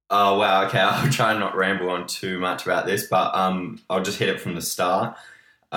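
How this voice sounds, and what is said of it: Australian accent. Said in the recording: “this Australian accent”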